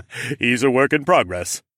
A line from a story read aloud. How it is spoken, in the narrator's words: Rodion laughed